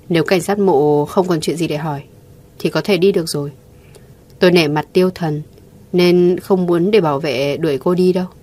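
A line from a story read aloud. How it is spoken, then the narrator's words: Cold, emotionless voice. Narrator (Vietnamese): giọng nói lạnh lùng không cảm xúc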